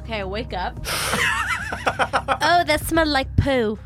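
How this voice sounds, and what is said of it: Odd put-on character voice. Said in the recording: “What was that voice? ... It kind of sounded like from Dark Shadows”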